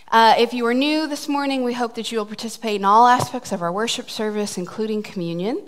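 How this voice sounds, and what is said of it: Out of breath, breathless speech. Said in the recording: “I'm out of breath. I really was running.”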